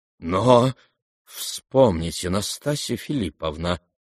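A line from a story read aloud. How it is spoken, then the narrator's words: Stammering mutter. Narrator (Russian): запинаясь, пробормотал Тоцкий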